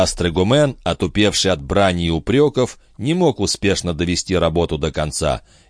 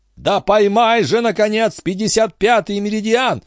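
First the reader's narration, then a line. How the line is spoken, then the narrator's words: Screaming. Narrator (Russian): вопил дядюшка Антифер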